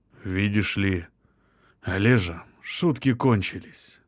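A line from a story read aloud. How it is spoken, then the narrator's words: Quiet. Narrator (Russian): тихо произнес Иосиф Яковлевич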